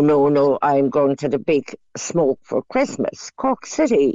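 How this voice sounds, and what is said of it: Usual voice. Nothing is said of it.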